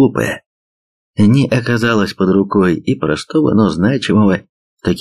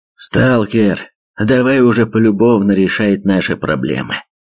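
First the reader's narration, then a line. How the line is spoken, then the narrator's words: Creaky hoarse voice echoing. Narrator (Russian): Раздался среди холмов несколько скрипучий, с хрипотцой голос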